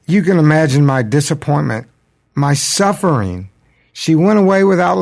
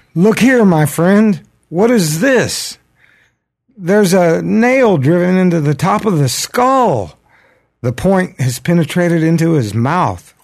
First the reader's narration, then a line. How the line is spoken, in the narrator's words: exclaimed